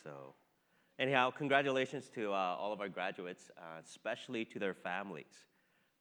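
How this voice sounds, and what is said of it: Slightly off, allergy-affected voice. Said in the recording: “my voice is a little bit off. I've been hit with a severe case of allergies”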